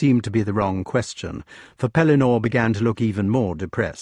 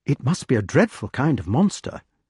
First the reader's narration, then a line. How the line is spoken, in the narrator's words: said the wart, anxiously